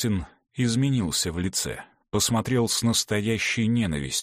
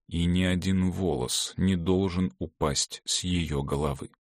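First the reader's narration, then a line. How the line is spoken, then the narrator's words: Quiet. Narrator (Russian): сказал Клавдий тихо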